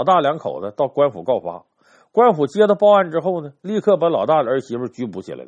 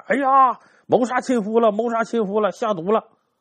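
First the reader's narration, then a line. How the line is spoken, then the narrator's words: Alarmed shout. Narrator (Chinese): 这老二媳妇一看出了人命，马上喊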